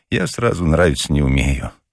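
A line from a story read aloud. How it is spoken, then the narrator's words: Gloomy sighing. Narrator (Russian): уныло вздыхал Ежевикин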